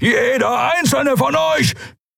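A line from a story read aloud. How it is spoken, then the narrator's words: Thundering voice. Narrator (German): donnerte Keru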